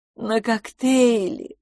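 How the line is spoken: Blissful sigh. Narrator (Russian): блаженно вздохнула мисс Петтигрю

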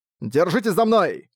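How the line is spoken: Shouted. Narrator (Russian): прокричал Арк

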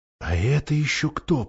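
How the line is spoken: Whisper. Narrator (Russian): прошептала Сьюзен

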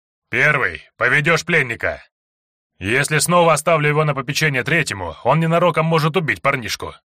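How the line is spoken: Grumbling. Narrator (Russian): ворчал сектант

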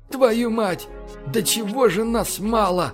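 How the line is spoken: Exclamation. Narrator (Russian): воскликнул Фокс

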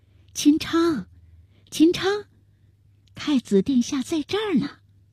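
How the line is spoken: Soft call. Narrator (Chinese): 万贞儿向门外小声地喊道

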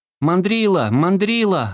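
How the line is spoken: Boys yelling. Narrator (Russian): орали мальчишки

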